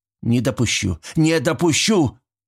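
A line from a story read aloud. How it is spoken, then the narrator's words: Shout. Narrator (Russian): крикнул Шмидт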